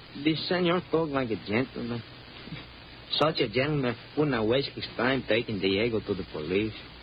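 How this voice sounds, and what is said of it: Mexican accent. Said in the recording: “You're a Mexican. I can tell by your accent.”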